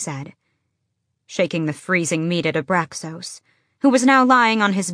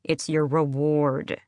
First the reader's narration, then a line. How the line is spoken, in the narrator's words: she said through her teeth